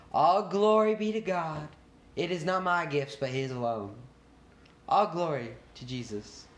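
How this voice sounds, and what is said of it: Put-on Southern US accent. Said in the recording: “That was my southern accent. Was that good?”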